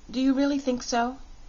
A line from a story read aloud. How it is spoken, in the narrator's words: asked Polychrome anxiously